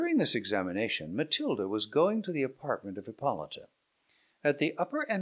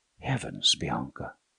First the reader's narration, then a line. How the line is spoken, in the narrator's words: said the princess softly